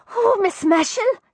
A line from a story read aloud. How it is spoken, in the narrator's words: she gasped